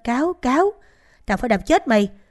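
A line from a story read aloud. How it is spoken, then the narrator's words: Angry shout. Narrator (Vietnamese): Ông Trung hét lên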